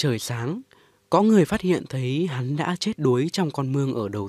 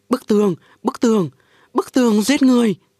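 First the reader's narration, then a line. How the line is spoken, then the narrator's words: Repeated frantic shouting. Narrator (Vietnamese): hắn liên hồi hét lên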